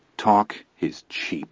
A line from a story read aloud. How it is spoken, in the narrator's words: Chris said calmly